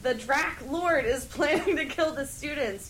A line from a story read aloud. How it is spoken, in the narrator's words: yelled Cornelia Fudge